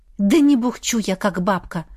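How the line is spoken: Girl snapping. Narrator (Russian): огрызнулась девушка

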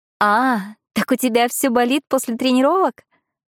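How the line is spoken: Laughing like tinkling bells. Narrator (Russian): она рассмеялась, словно зазвонили колокольчики

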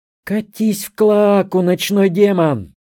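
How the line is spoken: Shouting. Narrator (Russian): прокричала Алантри, подрываясь в постели

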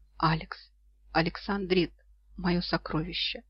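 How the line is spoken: Whispering. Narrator (Russian): шептал он

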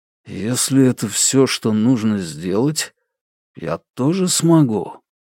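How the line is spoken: Mumbling to oneself. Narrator (Russian): жук-носорог бормочет себе под нос

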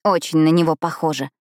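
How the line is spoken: Strained, through clenched teeth. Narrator (Russian): процедила Пипа, с трудом проталкивая слова сквозь сжатые зубы

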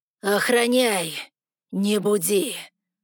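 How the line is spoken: Growled. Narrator (Russian): рыкнул Вритру

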